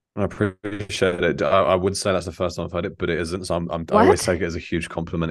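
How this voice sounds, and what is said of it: Pleasant voice with a distinct accent. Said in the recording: “you have just the best voice for podcasting and the best accent”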